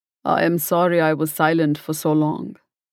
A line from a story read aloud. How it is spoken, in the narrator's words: he said